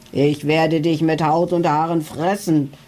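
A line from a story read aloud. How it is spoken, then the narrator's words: Thunderous booming voice. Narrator (German): donnerte er mit dröhnender Stimme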